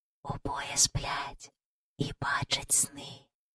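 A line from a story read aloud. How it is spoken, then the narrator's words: Whisper from above. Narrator (Ukrainian): пошепки сказав хтось над ними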